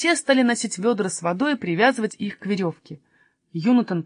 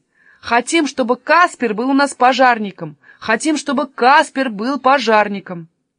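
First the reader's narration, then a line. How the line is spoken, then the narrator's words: Crowd shouting in unison. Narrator (Russian): они закричали все как один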